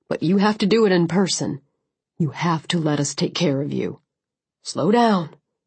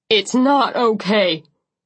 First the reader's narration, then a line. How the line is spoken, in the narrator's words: he shouted